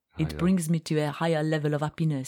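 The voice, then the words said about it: Put-on French accent. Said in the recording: “I think you should do that in a French accent.”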